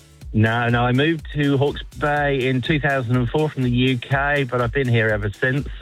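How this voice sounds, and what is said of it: English accent. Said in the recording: “I'm picking by your accent that you haven't always been here ... I'm still never going to lose this English accent”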